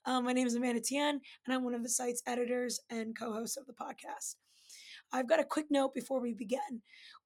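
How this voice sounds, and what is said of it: Strained, fading voice. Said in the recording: “You may recognize my voice, sort of. I'm losing my voice.”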